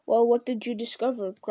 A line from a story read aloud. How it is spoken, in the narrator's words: growled the voice of Ugluk